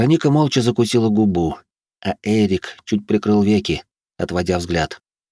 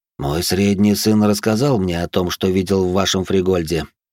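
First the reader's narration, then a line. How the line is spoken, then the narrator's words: Calm. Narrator (Russian): спокойно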